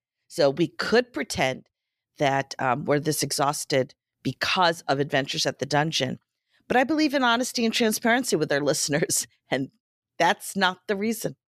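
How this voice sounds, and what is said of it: Voice not at its best. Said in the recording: “you'll hear that my voice is not quite up to par ... You don't have a sexy voice ... work also is sick”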